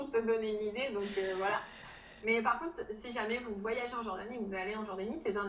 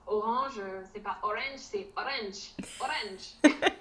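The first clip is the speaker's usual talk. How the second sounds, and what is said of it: Imitates a strong Jordanian English accent. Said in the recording (French): “l'accent jordanien ... ils ont un accent aussi très marqué”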